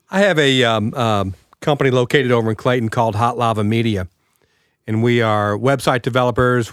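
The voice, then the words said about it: Raspy voice. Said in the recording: “I apologize for my voice. It's a little raspy today.”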